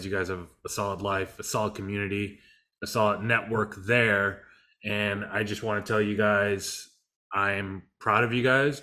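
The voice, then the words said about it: Strained, fading voice. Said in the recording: “I'm losing my voice again”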